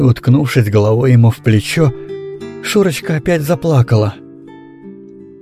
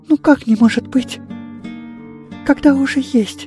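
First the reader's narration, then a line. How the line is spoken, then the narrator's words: Whispered. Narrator (Russian): прошептала Шурочка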